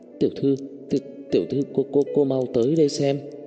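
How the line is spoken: Stammering call. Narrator (Vietnamese): ông chủ lắp bắp mở miệng gọi Tần Chỉ Ái

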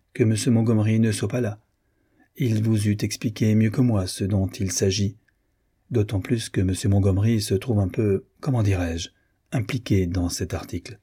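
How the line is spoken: Cold reply. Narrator (French): répondit froidement Madame de Solis

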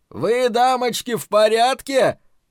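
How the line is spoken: Yelling. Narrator (Russian): заорал Дик

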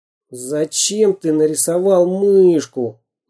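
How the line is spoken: Grumbling. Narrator (Russian): заворчал Самоделкин

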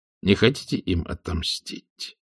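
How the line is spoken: Quiet question. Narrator (Russian): тихо спросил Макайр

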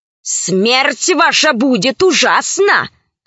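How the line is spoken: Growled. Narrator (Russian): зарычала боевая подруга

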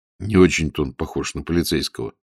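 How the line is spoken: Quiet, in Russian. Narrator (Russian): негромко сказал Волин по-русски

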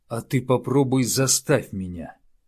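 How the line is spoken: Growled. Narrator (Russian): рыкнул на него Ювенис

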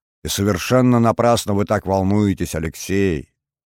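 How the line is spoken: Soothing motherly tone. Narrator (Russian): успокаивающим тоном произнесла мамочка Меркель

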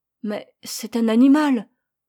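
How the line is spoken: Stammering father. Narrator (French): balbutia le père

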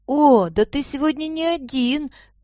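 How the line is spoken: Exclaiming girl. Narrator (Russian): воскликнула девочка

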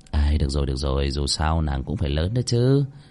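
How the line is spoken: Muttering. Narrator (Vietnamese): Cơ Linh Vân lẩm bẩm

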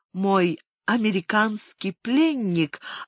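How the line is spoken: Tender cooing. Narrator (Russian): ласково проворковала

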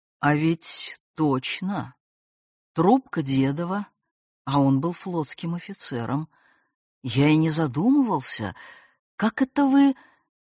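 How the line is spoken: Slow speech. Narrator (Russian): Медленно сказал

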